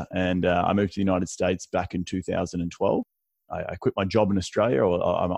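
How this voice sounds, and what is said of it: Australian accent. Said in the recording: “my accent is clearly not from this country either. Deep Southern accent via Australia.”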